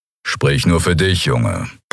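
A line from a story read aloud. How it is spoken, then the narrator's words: Grumbled. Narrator (German): brummte Kero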